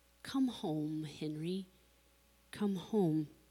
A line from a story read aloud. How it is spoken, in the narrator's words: God kindly smiling and gently inviting